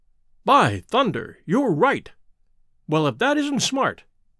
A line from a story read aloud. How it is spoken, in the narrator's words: cried Sir Henry